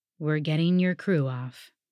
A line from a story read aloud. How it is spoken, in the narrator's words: Bertram said with another sigh